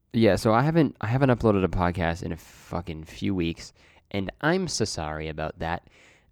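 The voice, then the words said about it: Sick-sounding voice. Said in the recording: “if you can't tell from my voice, I'm a little sick.”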